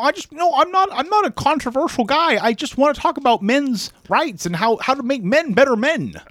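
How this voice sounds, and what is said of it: Jordan Peterson impression. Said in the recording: “it's actually not a bad impression of his voice ... I'm Jordan Peterson ... He's from Canada, but he sounds kind of Irish”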